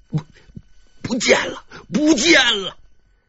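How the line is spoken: Breathless, terrified, halting. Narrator (Chinese): 乔宇突然气喘吁吁的，他的脸上满是惊恐，半天只说出了一句话

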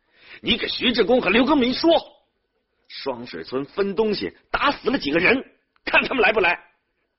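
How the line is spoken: Angry shouting. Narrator (Chinese): 平常不爱发火的金俊山对儿子吼叫说

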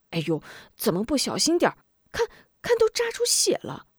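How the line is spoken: Mock-scolding. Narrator (Chinese): 嗔道

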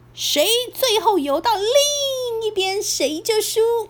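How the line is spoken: Shouting. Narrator (Chinese): 雷弟对史派克大喊

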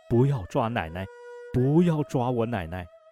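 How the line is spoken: Childish pleading. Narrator (Chinese): 用他稚气的声音苦苦哀求着说

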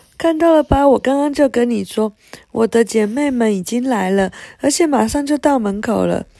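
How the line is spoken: Laughing. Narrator (Chinese): 佩特纳笑起来

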